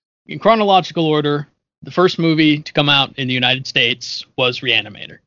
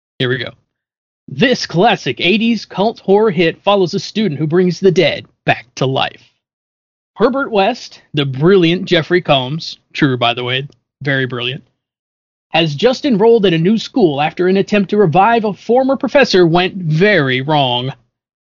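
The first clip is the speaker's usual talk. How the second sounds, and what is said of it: Dramatic movie trailer announcer voice. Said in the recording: “you in your movie announcer voice ... You need my movie announcer voice?”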